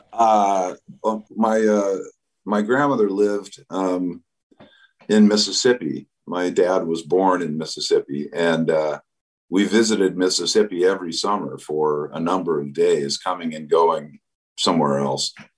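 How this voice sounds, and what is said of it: Southern US accent. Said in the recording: “I have a lot of this accent is sort of assumed, I guess, but I can't get away from it, especially when I'm singing”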